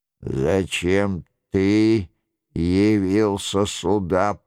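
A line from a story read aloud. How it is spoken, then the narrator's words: Hoarse rasp. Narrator (Russian): прохрипел Роншероль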